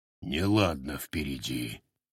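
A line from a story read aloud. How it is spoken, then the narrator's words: Dull, muffled. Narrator (Russian): глухо уронил он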